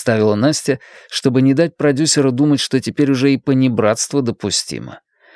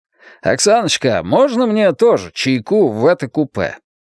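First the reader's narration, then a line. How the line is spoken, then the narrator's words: Loud. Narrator (Russian): громко произнес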